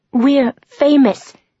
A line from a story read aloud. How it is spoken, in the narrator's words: he repeated, his voice as determined as the expression on his face